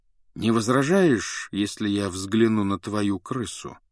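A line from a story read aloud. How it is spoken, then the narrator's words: Even-voiced question. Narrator (Russian): спросил он ровным голосом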